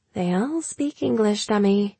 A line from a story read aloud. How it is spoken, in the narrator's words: she said softly